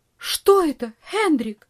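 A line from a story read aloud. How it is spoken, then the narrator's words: Cry out. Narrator (Russian): вскрикнула тетушка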